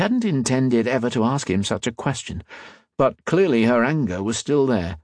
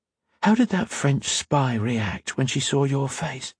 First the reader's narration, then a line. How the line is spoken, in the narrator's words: whispered